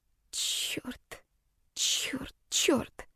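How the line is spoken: Whispering. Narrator (Russian): шептала

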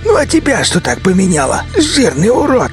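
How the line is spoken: Angry growl. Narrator (Russian): Зло прорычал бандит

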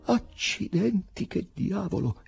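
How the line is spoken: Exclaiming. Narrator (Italian): esclamò il direttore

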